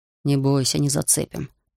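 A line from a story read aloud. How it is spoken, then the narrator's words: Grumbling mutter. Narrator (Russian): пробурчал Бруно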